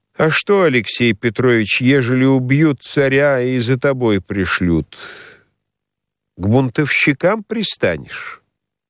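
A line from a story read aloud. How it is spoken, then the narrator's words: Slow lazy drawling question. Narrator (Russian): спросила своим протяжным ленивым голосом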